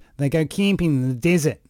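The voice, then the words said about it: Put-on nasal Australian accent. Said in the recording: “the Australian accent, which is just a flared nasal passengers”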